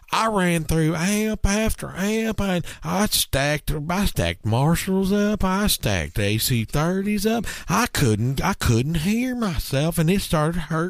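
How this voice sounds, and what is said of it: Imitates another person's voice. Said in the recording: “my Jack Pearson impression”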